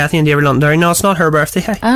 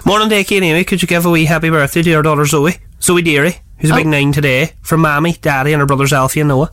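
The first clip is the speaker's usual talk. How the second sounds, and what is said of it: Put-on Derry Northern Irish accent. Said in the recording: “I'm loving the accent there ... I thought it was wild good, so I did. No, it was brutal, sorry. Apologies to everybody in Derry, Londonderry who's offended.”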